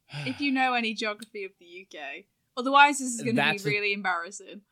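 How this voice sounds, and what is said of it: British accent. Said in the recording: “the UK and UK accent ... where would you say my accent is geographically”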